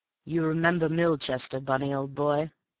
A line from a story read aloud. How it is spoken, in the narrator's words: His tone was as bland